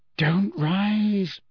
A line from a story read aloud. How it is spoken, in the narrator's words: Hermione whispered imploringly